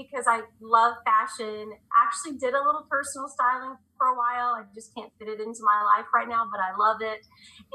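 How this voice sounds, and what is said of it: Oklahoma Southern accent. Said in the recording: “they always make fun of my accent ... I may say y'all every now and then because I live in Oklahoma”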